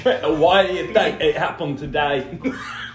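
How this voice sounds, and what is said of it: Imitates another person's voice, British-sounding. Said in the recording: “bad Hove impression ... You sounded British”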